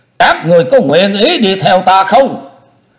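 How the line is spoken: Pause, then loud call. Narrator (Vietnamese): Chu Lễ dừng lời lại một chút rồi lớn tiếng kêu lên

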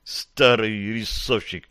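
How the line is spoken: Muttered. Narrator (Russian): пробормотал Гарри

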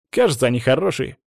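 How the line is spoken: Exclaim. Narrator (Russian): воскликнул Саня

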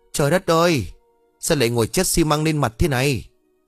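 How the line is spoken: Frightened shout. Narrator (Vietnamese): Ông lúc này hoảng sợ rồi hét lên

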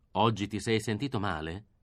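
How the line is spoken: Plain. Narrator (Italian): disse lui

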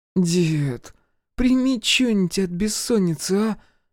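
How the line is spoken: Displeased groan behind door. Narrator (Russian): Недовольно простонали из-за двери

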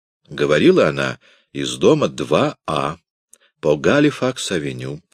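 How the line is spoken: Plain answer. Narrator (Russian): ответил доктор

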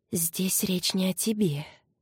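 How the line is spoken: Whispered. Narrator (Russian): шепнула

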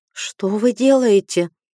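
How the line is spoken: Trembling-voiced question. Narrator (Russian): спросила я дрожащим голосом

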